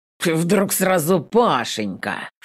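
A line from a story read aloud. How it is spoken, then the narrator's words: Snorting. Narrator (Russian): Фыркнув, щурится Волков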